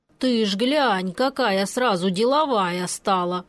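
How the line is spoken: Uncle's amused snort. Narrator (Russian): хмыкнул дядя Ваня, усмехаясь в усы

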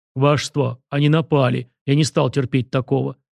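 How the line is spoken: Guilty deep voice. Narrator (Russian): виновато пробасил Фома

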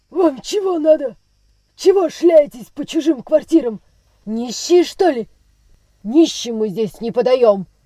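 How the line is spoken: Harsh, rude shout. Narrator (Russian): крикнул он резким и грубым голосом

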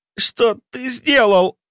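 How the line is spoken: Forced out, strained. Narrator (Russian): выдавила она

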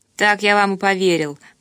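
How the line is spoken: Grumbled. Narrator (Russian): проворчал

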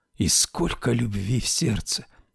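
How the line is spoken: Whispering. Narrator (Russian): прошептала Анита

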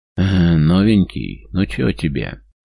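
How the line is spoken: Mocking gloating drawl. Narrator (Russian): Насмешливо тянет, явно наслаждаясь моментом

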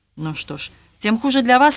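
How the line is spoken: Sharp reply. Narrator (Russian): резко ответил Роберт

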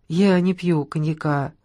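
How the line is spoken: Calm reply. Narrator (Russian): спокойно ответила Соня

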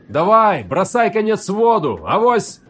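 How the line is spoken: Hoarse shout from crowd. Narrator (Russian): хрипло выкрикнули из толпы

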